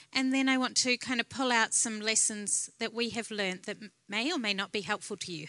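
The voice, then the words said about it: New Zealand accent. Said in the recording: “I actually was born in New Zealand. That's where the accent's from”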